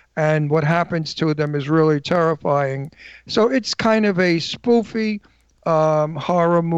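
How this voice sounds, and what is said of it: Usual voice. Nothing is said of it.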